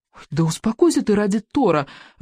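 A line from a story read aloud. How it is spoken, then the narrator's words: Pleading. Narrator (Russian): взмолился Рыбьенок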